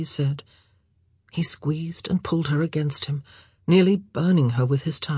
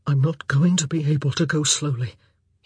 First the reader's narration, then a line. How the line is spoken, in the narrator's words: he said, his voice shaking